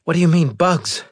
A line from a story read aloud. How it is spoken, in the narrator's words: panted